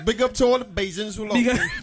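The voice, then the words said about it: Bajan accent. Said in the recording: “Bajan accent.”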